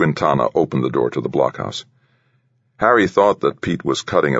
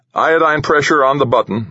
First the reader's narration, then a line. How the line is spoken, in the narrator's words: called out